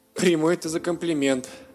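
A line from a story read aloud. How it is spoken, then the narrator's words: Laughing fox. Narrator (Russian): засмеялся лис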